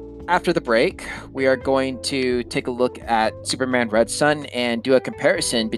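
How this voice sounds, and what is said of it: Usual voice. Nothing is said of it.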